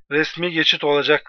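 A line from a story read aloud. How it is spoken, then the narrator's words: Shouted. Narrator (Turkish): diye bağırdığında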